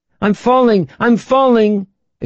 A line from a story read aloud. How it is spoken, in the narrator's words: exclaimed Tanya